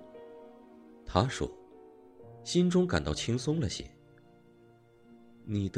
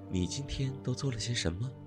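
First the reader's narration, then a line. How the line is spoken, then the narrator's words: Seemingly sincere curiosity. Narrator (Chinese): 仿佛他真想知道一样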